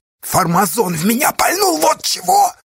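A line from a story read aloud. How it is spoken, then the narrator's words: Hissed. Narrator (Russian): прошипел Асташа, будто Яшка мог его услышать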